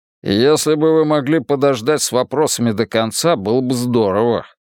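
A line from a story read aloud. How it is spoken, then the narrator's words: Grumbling mumble. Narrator (Russian): пробурчал Мунк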